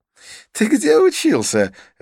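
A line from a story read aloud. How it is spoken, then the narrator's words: Curious laughing. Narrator (Russian): рассмеялся Идрис с любопытством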